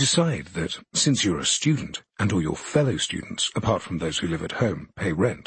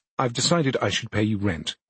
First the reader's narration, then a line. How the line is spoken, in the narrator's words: you reply, perhaps a little stiffly